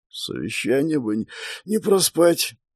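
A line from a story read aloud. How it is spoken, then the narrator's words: Muttering. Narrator (Russian): пробормотал он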